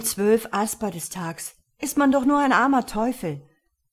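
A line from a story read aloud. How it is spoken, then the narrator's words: Sighing. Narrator (German): sagte Nardan seufzend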